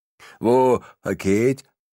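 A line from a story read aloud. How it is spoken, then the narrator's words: Slurred speech. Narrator (German): lallt er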